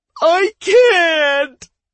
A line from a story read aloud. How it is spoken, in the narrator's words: The young mage's words burst out in a terrified scream